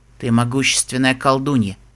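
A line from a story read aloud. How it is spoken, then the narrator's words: Quiet. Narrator (Russian): тихо сказал Пегас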